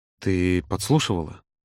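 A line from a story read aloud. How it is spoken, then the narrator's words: Barely audible rasp. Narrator (Russian): едва слышно просипел Володя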